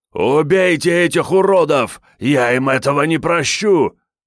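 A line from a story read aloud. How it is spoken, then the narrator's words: Shriek. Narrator (Russian): Завопил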